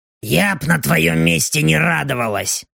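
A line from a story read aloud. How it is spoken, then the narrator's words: Demoness grumbling. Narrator (Russian): проворчала демоница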